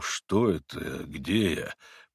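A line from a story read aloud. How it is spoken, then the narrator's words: Bewildered mumble. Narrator (Russian): пробормотал он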